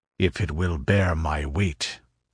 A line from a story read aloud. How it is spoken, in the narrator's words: grunted Conan